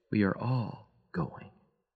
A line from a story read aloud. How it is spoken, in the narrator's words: He murmured softly